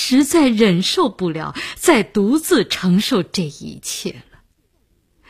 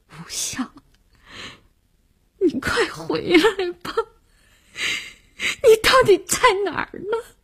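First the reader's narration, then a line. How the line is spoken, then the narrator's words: Crying. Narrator (Chinese): 他哭着说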